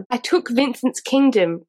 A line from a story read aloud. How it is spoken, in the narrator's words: Rain snarled